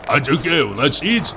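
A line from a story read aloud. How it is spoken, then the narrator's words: Hoarse bass question. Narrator (Russian): спросила вторая хриплым басом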